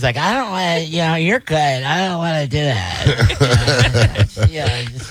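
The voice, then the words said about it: Imitates another person's voice. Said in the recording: “my impression ... She doesn't sound like that ... why do you make me sound like I'm stupid all the time?”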